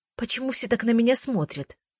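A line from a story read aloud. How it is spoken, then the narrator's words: Whispered through a smile. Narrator (Russian): прошептала я сквозь улыбку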